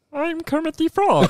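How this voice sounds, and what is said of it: Passable Kermit the Frog impression. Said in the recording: “That was fine... Like, that was a serviceable Kermit impression... It was fine. It wasn't good, but it was a fine Kermit impression.”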